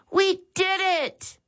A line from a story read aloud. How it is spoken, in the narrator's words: Max exclaimed